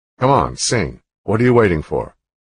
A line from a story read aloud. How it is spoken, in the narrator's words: In an annoyed voice, the camp commander said